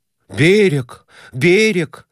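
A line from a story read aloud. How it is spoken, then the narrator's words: Joyful exclaiming. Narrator (Russian): радостно восклицал он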